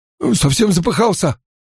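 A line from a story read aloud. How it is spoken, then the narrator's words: Squeezed out, breathless. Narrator (Russian): выдавил Билл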